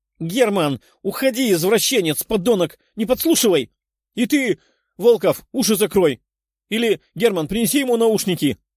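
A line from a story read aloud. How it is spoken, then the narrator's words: Embarrassed girl shouting. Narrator (Russian): кричала красная от стыда девушка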